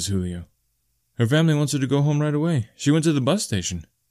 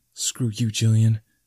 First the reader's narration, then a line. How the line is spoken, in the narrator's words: I whisper